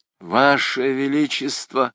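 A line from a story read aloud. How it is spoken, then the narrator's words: Pleading. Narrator (Russian): взмолился Грангуар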